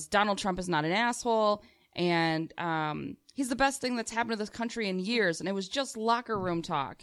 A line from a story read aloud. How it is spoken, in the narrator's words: a screaming fight with my Republican father, and he yells